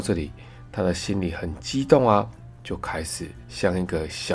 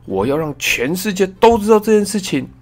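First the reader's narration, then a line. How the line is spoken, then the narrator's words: Happy shout. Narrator (Chinese): 他高兴的喊了起来，说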